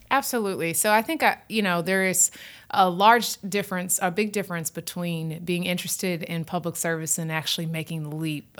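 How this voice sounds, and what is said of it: Southern drawl. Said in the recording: “a Southern drawl”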